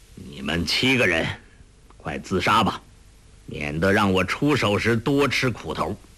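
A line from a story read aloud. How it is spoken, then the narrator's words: Cold, displaced anger. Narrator (Chinese): 黄药师迁怒于他，冷冷的道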